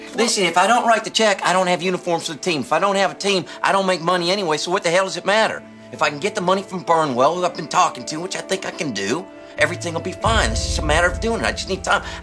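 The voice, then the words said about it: Raised, agitated voice. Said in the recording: “Don't raise your voice. Don't raise your voice.”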